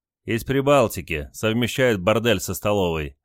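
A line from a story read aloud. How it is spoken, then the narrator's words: Short laugh. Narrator (Russian): хохотнул Василий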